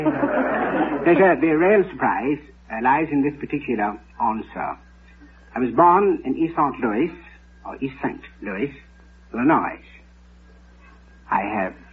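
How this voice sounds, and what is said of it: British accent. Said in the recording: “an African prince with a British accent”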